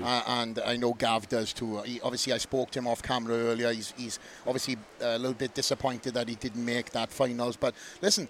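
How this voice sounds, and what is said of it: Welsh accent. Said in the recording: “I think you sound more Welsh. ... you got more Welsh.”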